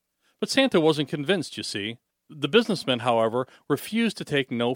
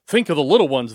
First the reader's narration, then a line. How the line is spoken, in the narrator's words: they exclaimed